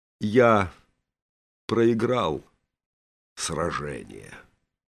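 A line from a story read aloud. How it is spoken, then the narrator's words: Slow, strained. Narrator (Russian): медленно, как бы через силу, сказал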